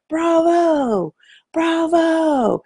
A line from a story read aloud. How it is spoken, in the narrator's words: He couldn't have been more than 7 or 8 years old, and he starts screaming, and I mean screaming